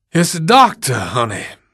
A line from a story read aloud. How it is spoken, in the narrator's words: Miss Reba panted harshly